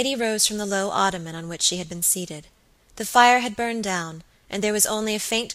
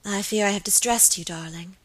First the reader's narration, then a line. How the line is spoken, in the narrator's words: murmured Lady Audley